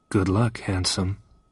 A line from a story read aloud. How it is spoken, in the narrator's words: said Pussy softly